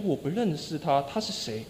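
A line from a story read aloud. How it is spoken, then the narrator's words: Voice fading away. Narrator (Chinese): 他声音越来越微小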